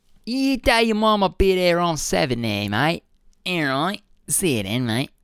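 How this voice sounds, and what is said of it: Put-on British Cockney accent. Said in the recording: “in a really British Cockney accent”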